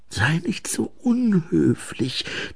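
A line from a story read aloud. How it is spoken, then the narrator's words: Hissed. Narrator (German): zischte Ensel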